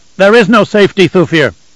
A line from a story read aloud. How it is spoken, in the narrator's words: Leto shouted back